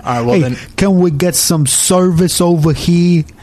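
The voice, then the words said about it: Exaggerated bad New York accent. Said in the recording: “I'm going to do the worst New York accent I possibly can.”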